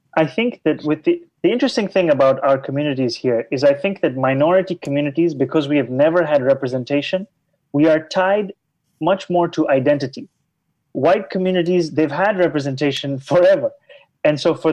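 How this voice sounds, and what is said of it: Thick accent. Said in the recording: “in a suspiciously thick accent”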